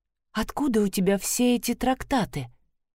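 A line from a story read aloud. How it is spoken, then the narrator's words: Very quiet question. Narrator (Russian): совсем тихо ответила она и спросила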